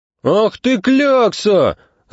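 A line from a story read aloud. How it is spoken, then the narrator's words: Shouting. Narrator (Russian): закричал Зюзя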